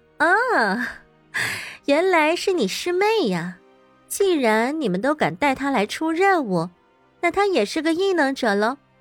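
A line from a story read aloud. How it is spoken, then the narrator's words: Taken aback, then laughing. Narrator (Chinese): 邹庆威愣了愣，又笑道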